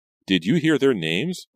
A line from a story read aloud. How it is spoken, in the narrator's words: Reva asked eagerly